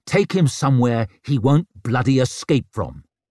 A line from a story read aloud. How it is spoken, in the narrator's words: snapped